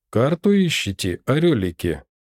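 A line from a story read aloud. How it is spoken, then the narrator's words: Unexpectedly brisk veteran's question. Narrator (Russian): спросил ветеран неожиданно бодро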